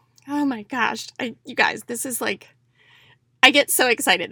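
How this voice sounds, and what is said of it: Emotional, excited voice. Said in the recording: “I'm getting emotional.”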